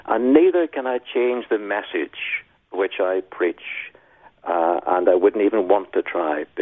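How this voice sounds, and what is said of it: Northern Irish accent. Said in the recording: “I was in Northern Ireland ... So I can't change my accent, no matter how hard I try”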